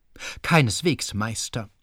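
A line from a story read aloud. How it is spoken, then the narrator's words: Plain. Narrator (German): sagte sie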